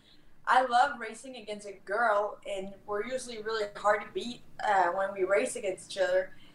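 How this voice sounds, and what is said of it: French Canadian accent. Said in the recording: “with my French accent kind of represent the French part of Canada”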